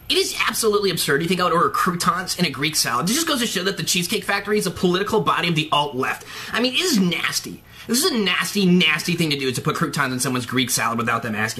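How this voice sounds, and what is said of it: Imitates another person's voice. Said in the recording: “really good impression ... nailed it!”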